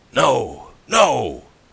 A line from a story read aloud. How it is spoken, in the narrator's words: cried the other